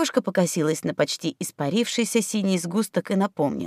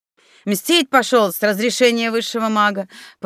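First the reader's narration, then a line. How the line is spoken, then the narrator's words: Knowing snort. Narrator (Russian): понимающе хмыкнул Савелий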